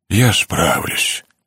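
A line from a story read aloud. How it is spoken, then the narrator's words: Hollow, muffled. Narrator (Russian): глухо произнес мистер Мистериус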